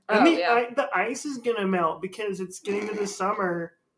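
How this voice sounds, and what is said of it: Imitates another person's voice. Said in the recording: “That's my Jessica impression.”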